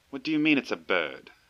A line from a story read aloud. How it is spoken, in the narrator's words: exclaimed